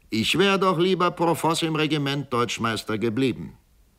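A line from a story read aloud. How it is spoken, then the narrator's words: Call. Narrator (German): rief auch Georg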